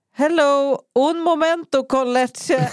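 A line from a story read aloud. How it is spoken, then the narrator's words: Stressed shouting. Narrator (Swedish): Jag ropar stressat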